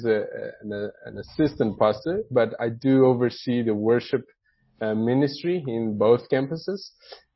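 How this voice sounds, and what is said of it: Brazilian accent. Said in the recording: “If you are wondering where my accent is ... I'm originally from Brazil. That's where the accent comes from.”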